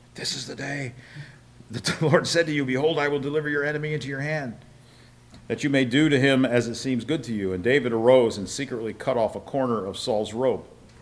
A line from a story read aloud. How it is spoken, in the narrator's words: whispering